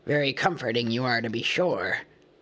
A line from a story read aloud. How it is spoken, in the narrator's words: growled Thorin